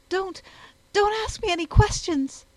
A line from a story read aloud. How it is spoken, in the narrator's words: she said breathlessly